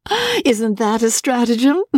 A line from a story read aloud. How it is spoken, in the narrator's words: George burst out laughing